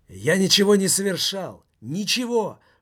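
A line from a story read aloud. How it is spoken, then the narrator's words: Shouted. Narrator (Russian): выкрикнул Томмазо Кампанелло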